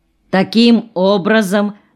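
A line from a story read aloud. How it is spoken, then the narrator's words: Lecturing voice. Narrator (Russian): лекторским голосом продолжал Беклемишев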